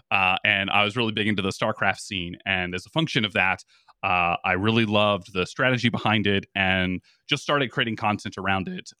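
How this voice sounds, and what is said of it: Announcer-style speaking voice. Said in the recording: “if you can tell from my voice, I have a little bit of an announcer type voice”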